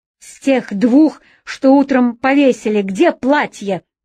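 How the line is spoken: Sharp question. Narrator (Russian): резко спросил своего подчиненного полковник

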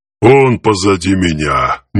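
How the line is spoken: Reluctant mutter. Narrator (Russian): нехотя буркнула

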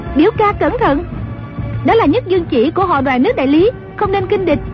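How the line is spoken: Cry out. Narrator (Vietnamese): Dương Ngữ Yên la lên

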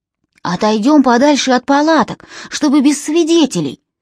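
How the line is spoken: Muffled shout through helmet. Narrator (Russian): крикнул он своим спутникам, но голос из шлема был едва слышен

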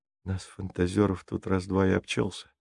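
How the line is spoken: Mumbling. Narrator (Russian): пробормотал Джейсон

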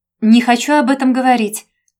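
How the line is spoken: Shouted after someone. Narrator (Russian): прокричала Женя вслед

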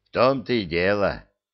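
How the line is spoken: Glum mutter of admiral. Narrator (Russian): уныло буркнул адмирал

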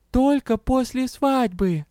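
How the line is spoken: Sad. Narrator (Russian): печально спросил

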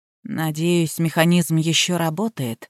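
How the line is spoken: Mutter. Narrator (Russian): пробормотал Индра

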